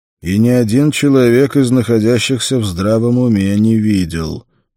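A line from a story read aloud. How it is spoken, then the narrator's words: Grim reply. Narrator (Russian): мрачно ответил Конан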